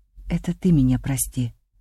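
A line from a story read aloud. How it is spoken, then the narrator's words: Quiet reply. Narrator (Russian): тихо ответил он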